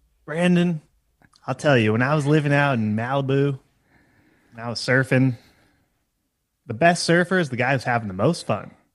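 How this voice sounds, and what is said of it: Matthew McConaughey impression. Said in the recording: “the other one is Matt McConaughey ... Can you do an impression of him?”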